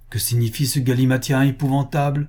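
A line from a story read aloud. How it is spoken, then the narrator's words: Exclaimed. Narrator (French): s'écria le calife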